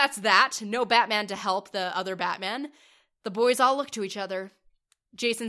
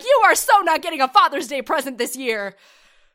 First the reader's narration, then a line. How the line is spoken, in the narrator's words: Dick just screams like